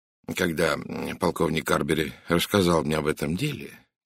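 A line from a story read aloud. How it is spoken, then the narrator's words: Quiet voice. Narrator (Russian): тихим голосом начал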